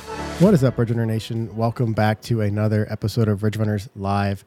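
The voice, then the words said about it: Nasal voice from a cold. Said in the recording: “I'm coming off a little bit of a cold, so if I sound nasally tonight”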